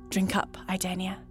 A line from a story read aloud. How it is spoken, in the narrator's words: he whispers